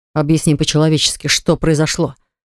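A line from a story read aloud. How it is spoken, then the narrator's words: Growled close to ear. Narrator (Russian): Прорычал он ей на ухо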